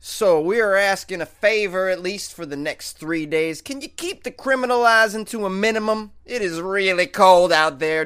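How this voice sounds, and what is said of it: Impression of a police officer. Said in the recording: “my impression of a Warrensburg police officer”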